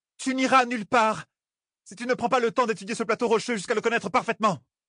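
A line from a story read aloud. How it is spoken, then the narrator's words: Girl shouting. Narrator (French): cria la fille héritière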